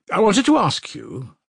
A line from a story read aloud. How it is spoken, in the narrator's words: said Raskolnikov hastily